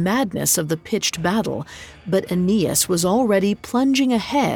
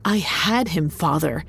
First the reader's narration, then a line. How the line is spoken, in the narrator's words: Ascanius said bitterly